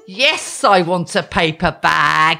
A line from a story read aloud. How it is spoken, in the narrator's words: I hiss at the person on the till